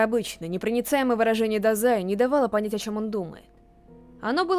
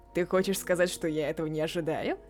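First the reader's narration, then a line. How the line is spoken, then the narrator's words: Mockingly threatening. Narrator (Russian): Словно насмешливо угрожая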